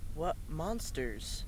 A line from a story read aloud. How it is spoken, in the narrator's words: John whispered to her, keeping his voice as low as he could